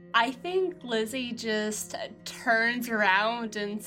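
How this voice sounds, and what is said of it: Usual voice. Nothing is said of it.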